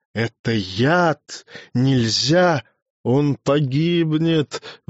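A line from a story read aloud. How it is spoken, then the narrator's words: Howling, desperate. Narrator (Russian): взвыл Гюнтер Невротик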